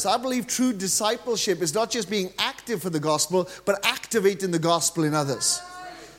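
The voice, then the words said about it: Welsh accent. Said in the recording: “as you can tell from my accent, ... I'm actually from Wales”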